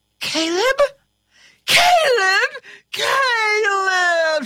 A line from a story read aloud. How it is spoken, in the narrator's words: she shrieked